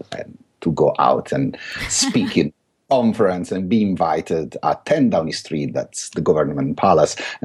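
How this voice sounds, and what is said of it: Thick Italian accent. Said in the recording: “I still have this thick Italian accent ... still be the only one with this very thick accent. So I'm definitely not British”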